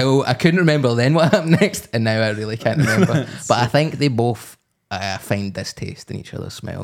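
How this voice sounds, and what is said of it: Usual voice. Nothing is said of it.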